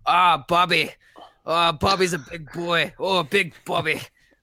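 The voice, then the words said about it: Botched Steven Adams New Zealand impression. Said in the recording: “in his beautiful deep New Zealand accent, which I'm going to paraphrase but horribly butcher ... Scottish accent”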